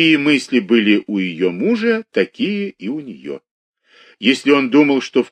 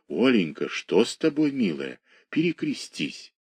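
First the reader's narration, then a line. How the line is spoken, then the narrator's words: Tender. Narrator (Russian): Пустовалов говорил ей нежно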